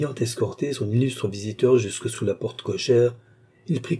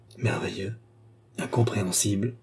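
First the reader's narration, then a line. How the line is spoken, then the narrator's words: Murmur. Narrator (French): murmura le cardinal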